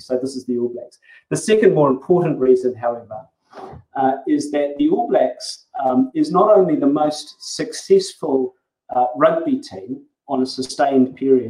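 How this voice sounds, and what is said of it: New Zealand accent. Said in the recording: “as you may have noticed from my accent, I'm actually a Kiwi”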